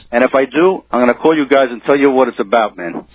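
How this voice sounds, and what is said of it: New York accent. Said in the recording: “we love that New York accent”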